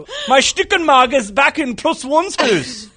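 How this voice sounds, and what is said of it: Half-hearted German accent. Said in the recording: “I couldn't quite commit to the full German accent.”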